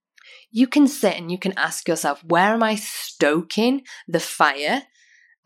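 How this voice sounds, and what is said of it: British accent. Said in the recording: “that may sound weird in my accent... we used to in the UK”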